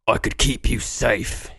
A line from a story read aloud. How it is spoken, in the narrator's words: he rasped